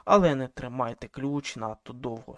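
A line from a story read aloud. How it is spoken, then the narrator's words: Plain. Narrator (Ukrainian): сказала жінка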